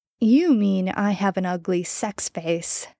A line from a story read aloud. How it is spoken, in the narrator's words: Jensen laughed tiredly